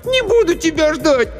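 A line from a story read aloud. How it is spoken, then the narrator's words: Shouted. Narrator (Russian): Аня закричала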